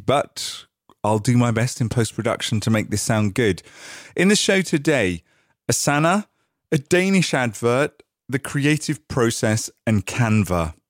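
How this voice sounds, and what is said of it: Growly voice with a cold. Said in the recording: “I've got a bit of a cold, so I'm going to sound a little bit growly”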